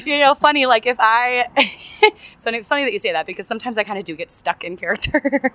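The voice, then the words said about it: Very fast, energetic speech. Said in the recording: “you could probably even tell from my voice right now, like, I'm always 110 miles an hour. And talk so fast”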